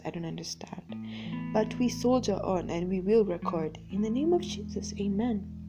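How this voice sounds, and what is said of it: Croaky, hoarse, sniffly voice. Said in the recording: “my voice sounds a bit croaky ... weird sniffles and my voice just gets hoarse”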